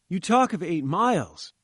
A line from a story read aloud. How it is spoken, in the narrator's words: I cried